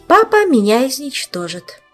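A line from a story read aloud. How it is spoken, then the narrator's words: Sighing, resigned. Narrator (Russian): Саша еще раз вздохнула и обреченно произнесла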